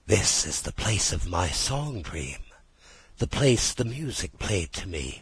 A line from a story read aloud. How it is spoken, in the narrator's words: whispered Rat, as if in a trance